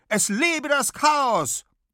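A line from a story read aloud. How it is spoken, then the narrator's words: Defiant shout. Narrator (German): reckt sie die Faust und ruft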